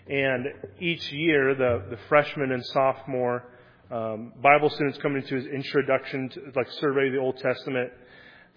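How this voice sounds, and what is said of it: Slightly raspy voice. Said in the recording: “My voice was getting a little bit raspy.”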